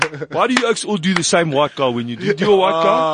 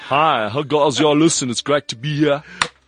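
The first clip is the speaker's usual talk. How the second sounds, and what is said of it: Put-on white guy accent. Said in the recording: “So I'm doing white accent.”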